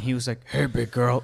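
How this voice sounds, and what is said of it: Deep Hulk character voice. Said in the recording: “Your Hulk impression is so good. ... It's just Ruffalo trying to do a deep voice.”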